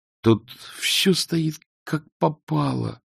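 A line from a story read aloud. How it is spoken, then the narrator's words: Moaned. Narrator (Russian): простонал он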